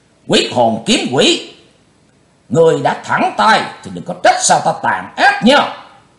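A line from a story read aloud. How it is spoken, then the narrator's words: Loud shout. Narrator (Vietnamese): Lão cục tài quát lớn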